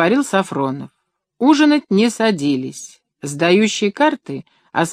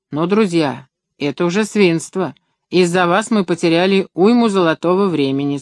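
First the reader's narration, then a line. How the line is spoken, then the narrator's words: Plain. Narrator (Russian): сказал он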